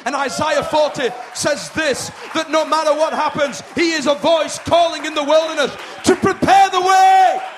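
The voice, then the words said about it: Excited shouting preacher. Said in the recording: “I'm sorry I'm shouting this morning, I'm excited.”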